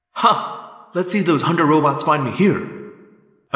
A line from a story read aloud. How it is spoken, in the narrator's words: said triumphantly